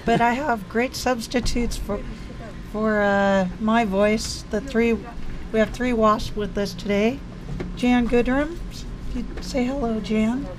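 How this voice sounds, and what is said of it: Hoarse, mostly lost voice. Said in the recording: “I'm sorry I have lost my voice”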